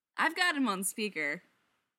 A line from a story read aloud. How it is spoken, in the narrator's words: Pete calls out, cheerfully unrepentant